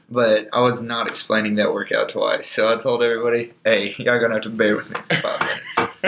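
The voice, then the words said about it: Weak, worn-out voice. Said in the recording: “My voice is kind of out, so I typically don't sound like this.”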